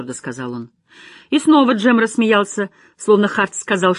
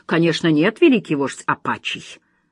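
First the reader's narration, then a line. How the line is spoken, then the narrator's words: Amused grunt. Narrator (Russian): Джем хмыкнул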